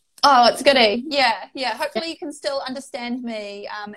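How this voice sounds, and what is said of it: Strong New Zealand accent. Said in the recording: “That's a fantastic accent you've got. It's a bit stronger than my Kiwi friends”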